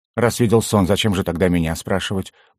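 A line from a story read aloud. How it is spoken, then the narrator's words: Grumbled mutter. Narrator (Russian): буркнул желтоглазый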